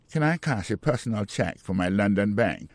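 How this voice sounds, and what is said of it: Put-on British accent. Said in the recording (French): “dans l'accent britannique”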